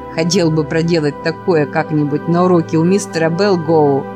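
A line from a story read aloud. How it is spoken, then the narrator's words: Laughing like a child. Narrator (Russian): сказал Спиди и захохотал, как ребенок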